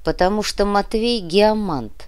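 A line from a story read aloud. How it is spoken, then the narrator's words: Grumbled. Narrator (Russian): пробурчал Сантьяго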